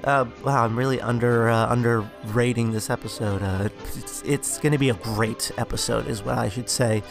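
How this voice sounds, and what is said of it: Sick, congested voice with sniffles. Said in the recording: “I'm feeling a bit quite under the weather this morning as I record, so you guys will probably hear it in my voice,... if you hear me sniffling”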